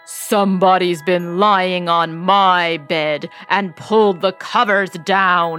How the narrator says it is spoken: he growled in his great big voice

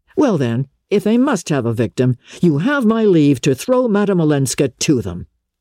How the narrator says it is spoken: cried her son, exasperated

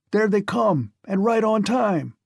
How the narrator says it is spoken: Sweetbriar shouted suddenly

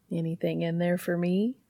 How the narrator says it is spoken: Dean asks sweetly

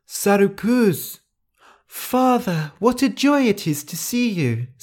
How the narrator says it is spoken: Sarukuz cried

